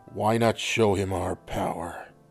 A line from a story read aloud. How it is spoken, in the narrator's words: Reagan growled